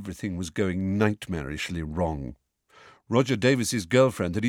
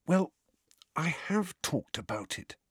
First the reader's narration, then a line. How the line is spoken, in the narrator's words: Harry said in a whisper